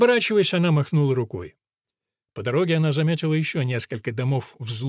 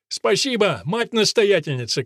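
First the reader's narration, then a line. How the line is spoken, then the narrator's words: Called after someone. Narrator (Russian): крикнул ей вслед Тоби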